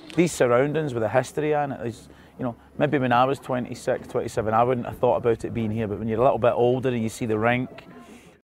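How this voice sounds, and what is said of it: Strong regional accent. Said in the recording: “what a strong accent”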